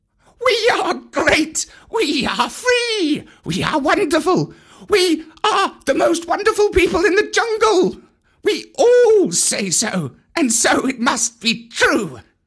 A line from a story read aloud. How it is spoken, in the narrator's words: they shouted